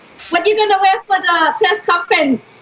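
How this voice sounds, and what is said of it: Put-on accent imitating her mother. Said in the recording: “let me get my accent right ... It's good.”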